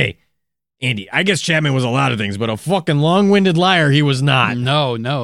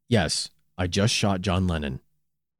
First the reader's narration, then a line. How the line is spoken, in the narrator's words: To which Chapman calmly replied